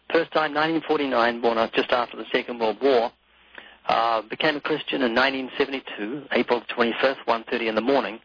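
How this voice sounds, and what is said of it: Slight New Zealand accent. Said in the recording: “You might notice a very slight accent. That's because I was born twice in New Zealand.”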